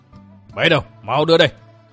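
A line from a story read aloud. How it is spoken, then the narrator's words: Furious shout. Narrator (Vietnamese): Tức đến với cả lồng ngực, họ Lãnh quát lớn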